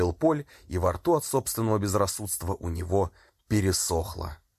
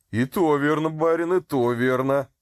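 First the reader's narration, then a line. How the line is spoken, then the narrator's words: Loud laughter. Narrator (Russian): расхохотался Матвей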